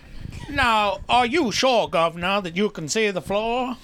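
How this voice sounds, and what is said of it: Put-on Southern US lawyer accent. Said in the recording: “That's my southern lawyer accent.”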